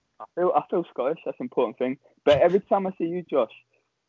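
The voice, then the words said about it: Southern English accent. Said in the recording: “I don't sound Scottish ... I never got any hint of a Scottish accent, so I just sound southern as hell. So this is well, English southern, that is”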